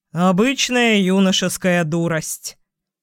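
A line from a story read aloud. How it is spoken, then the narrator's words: Tired report. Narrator (Russian): отрапортовал он уставшим голосом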